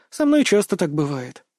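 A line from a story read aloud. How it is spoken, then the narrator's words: Sighing. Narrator (Russian): вздохнула она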